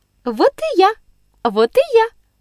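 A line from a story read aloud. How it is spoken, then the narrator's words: Cried out cheerfully. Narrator (Russian): вскричала весело княжна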